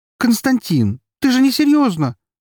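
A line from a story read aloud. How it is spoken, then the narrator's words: Exclaimed. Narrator (Russian): воскликнула она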